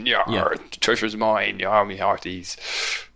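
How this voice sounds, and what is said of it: Exaggerated pirate voice. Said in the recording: “That's my awful pirate.”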